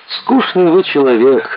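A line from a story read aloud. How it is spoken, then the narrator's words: Sigh. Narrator (Russian): вздохнула Маруська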